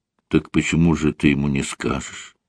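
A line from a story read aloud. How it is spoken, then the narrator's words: Calm. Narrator (Russian): спокойно произнесла Рит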